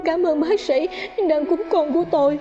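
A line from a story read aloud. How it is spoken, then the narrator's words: Tearful cry. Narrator (Vietnamese): Mẹ đứa nhỏ vừa lau nước mắt, kêu lên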